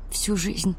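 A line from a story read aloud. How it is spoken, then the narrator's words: Barely audible. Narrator (Russian): сказала едва слышно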